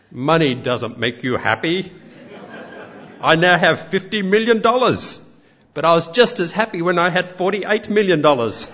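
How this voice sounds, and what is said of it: Imitates another person's voice and accent. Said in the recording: “Apologies for the accent.”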